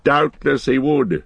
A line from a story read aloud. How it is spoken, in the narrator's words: laughed Gandalf